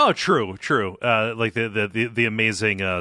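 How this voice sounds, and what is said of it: Usual voice. Nothing is said of it.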